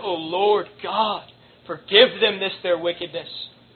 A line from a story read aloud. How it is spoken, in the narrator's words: gave a great sigh and, looking up towards heaven, said